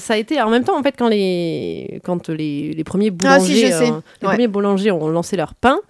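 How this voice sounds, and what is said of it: Southern French accent. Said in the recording (French): “mon bel accent du sud”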